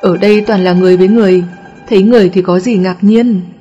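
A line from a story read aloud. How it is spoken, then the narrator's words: Laughing. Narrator (Vietnamese): Công Tôn bật cười nói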